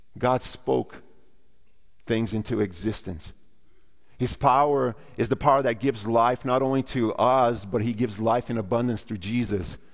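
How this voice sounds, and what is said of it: Speaks with a noticeable accent. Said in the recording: “the guy who has a funny accent”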